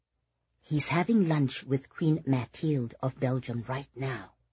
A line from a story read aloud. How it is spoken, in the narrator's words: Oliver whispered